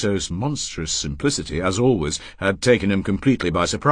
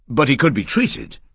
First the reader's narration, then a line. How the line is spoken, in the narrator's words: he said hastily